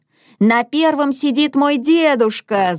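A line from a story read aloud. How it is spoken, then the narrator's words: Shouting. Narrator (Russian): закричал Уля Александр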